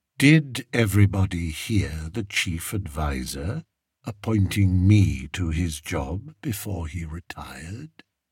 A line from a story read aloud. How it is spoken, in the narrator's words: he asked softly